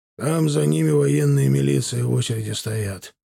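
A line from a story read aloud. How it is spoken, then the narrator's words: Plain. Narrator (Russian): ответил Бортко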